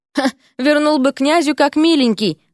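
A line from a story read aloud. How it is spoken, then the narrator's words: Amused snort. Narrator (Russian): хмыкнул Эрик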